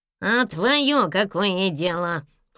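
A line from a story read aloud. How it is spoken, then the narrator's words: Snapping angrily. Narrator (Russian): окрысился на него Гнусавый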